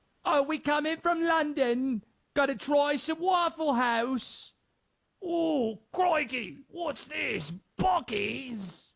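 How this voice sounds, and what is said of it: Awful put-on London accent. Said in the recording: “My accents are awful, sorry.”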